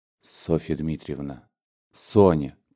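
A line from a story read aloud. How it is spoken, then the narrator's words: Whisper. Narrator (Russian): прошептал он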